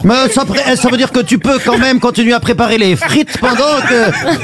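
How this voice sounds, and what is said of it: Put-on Belgian French accent. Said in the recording (French): “cet accent belge que vous faites”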